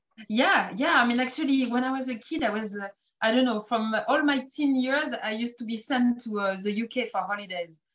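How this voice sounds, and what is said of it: French accent. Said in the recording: “you have a French accent”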